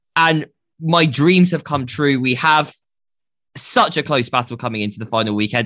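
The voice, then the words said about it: Excited, energetic delivery. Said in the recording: “I sound so excited right now.”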